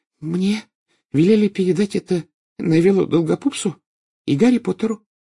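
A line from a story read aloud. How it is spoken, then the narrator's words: Stammering babble. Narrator (Russian): пролепетала она, запинаясь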